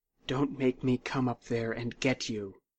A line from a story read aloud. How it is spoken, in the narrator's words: she said quietly